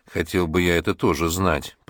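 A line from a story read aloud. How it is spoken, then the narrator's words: Child speaking. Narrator (Russian): проговорил малыш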